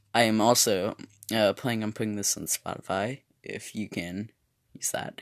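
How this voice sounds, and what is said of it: Narrator-style voice. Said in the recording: “I'm using my narrator voice”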